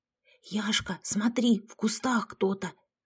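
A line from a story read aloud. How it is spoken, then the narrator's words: Whispered. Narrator (Russian): прошептала я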